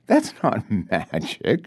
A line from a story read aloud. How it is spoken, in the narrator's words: she says, laughing